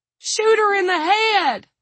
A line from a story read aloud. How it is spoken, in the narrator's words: Don screamed